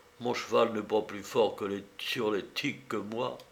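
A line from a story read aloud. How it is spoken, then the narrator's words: Added very quietly. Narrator (French): Et il ajouta, tout bas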